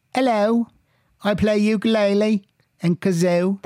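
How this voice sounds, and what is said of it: Bad fake British accent. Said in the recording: “That's an awful accent. ... It's British.”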